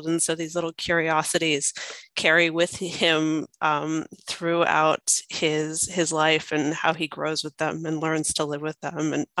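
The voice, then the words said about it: Slight American accent. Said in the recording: “has a slight accent that's not Australian... she was born in America”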